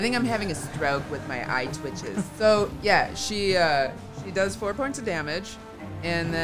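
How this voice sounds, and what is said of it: Usual voice. Nothing is said of it.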